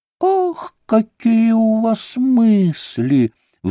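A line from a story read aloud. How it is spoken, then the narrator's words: Delighted squeal. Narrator (Russian): взвизгнула в восторге Лиза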